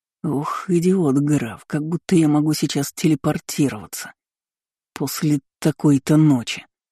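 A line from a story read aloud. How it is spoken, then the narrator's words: Hissing. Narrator (Russian): шипел Эрик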